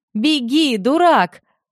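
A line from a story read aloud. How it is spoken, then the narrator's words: Shouted. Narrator (Russian): Крис крикнул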